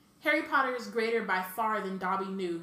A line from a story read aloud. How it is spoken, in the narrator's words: he sobbed